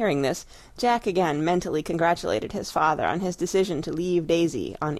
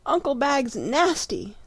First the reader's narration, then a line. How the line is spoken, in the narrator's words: sobbed Daisy